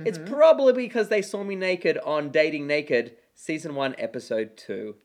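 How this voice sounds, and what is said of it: Australian accent, partly American and English. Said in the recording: “This accent comes from Australia... This is an authentic accent... it kind of sounds half American, half English”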